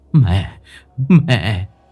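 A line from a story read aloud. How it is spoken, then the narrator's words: Stammering. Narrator (Vietnamese): Tâm lắp bắp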